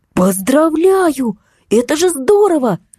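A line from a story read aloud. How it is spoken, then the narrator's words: Exclaimed. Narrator (Russian): Воскликнула Настя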